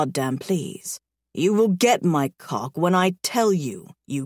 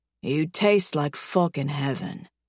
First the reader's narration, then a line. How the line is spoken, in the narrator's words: he groans